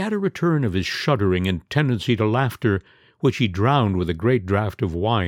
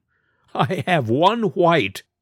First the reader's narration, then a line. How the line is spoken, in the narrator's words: returned laughing